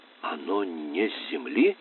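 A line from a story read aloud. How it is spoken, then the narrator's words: Moan. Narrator (Russian): Хитер простонала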